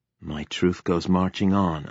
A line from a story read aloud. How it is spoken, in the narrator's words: I murmured